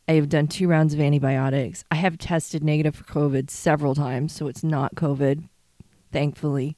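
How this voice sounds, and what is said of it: Sick-sounding voice. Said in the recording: “as you can hear from my voice, I'm still not 100%... as you can tell, it's still in my chest. It's still in my head.”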